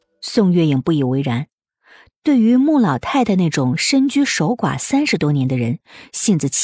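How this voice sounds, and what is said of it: Usual voice. Nothing is said of it.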